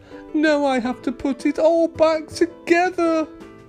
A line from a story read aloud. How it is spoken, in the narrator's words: Alex said sadly